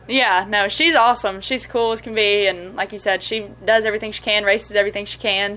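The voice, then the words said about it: Southern American accent. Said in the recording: “the Southern accent, our little Georgia peach”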